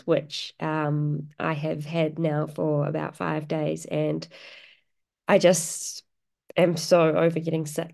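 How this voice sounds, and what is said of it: Nasal, congested voice. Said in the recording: “as you can probably hear in my voice, I'm a bit nasally because I've got a cold,”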